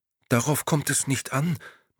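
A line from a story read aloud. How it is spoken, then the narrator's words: Anxious. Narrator (German): meinte Maria ängstlich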